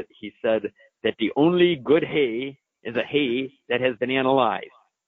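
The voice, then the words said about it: Put-on German accent. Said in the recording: “I like my German accent there.”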